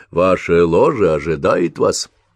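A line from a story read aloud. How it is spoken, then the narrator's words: Tired, smiling. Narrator (Russian): устало улыбнулась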